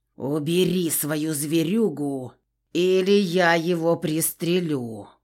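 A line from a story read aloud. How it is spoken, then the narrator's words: Growled. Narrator (Russian): прорычал Егор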